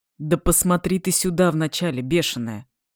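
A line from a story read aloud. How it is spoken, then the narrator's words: Stern command. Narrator (Russian): Строго, без намека даже на усмешку, приказал Денис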